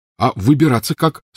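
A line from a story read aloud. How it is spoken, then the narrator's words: Plain. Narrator (Russian): спросил Рон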